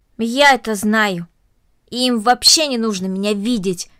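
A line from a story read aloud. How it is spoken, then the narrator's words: Angry. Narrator (Russian): сердито произнесла Корнелли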